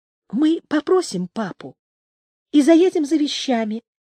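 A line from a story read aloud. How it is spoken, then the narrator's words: Quiet and passionate. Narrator (Russian): тихо и страстно говорила она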